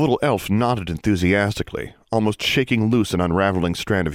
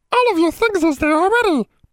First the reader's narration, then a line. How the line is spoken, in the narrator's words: piped Daisy